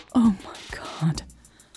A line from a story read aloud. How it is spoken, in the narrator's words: Elle whispering